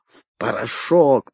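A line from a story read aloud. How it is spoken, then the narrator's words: Hissing. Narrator (Russian): прошипел Умбро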